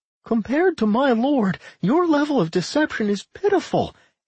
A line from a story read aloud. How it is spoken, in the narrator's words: Anodyne laughed loudly